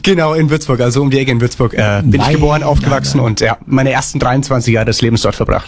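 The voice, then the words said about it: Franconian German dialect. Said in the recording (German): “dein Dialekt, ist das ein fränkisches Dialekt? ... Na, freilich.”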